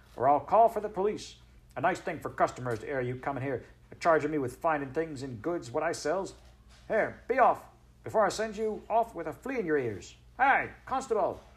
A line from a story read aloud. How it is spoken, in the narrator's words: shouted